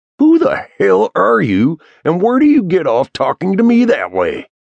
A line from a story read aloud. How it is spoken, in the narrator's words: growled, his voice rising in volume to match his temper